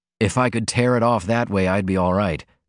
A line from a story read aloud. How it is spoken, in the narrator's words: he said